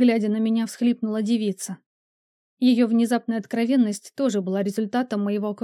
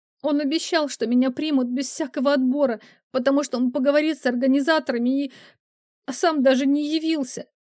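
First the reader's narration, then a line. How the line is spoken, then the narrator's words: Muffled sobbing, woman. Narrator (Russian): снова зарыдала, уткнувшись лицом в колени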